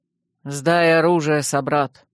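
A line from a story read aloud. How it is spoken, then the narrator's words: Stern command. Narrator (Russian): строго приказал командир наших охранников, воин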